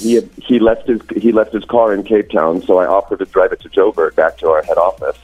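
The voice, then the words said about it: American-tinged accent. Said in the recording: “I've picked up on your accent ... born in the States ... raised there ... just with a silly accent”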